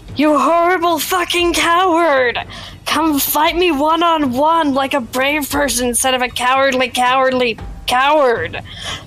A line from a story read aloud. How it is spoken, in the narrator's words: I'm yelling